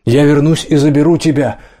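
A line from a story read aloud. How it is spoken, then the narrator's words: Shout. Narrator (Russian): прокричал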